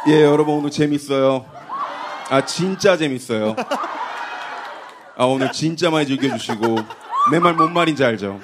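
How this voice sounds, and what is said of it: Imitates another person's voice. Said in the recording (Korean): “스윙스 성대모사로”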